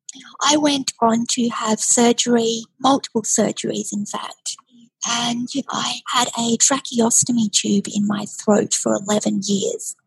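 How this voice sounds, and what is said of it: Breathy voice. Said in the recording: “as you can hear, my voice is a bit breathy... I still have a paralyzed vocal cord”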